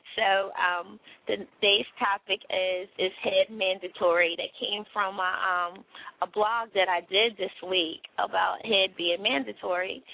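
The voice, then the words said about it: Hoarse voice. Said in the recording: “my voice is hoarse like this”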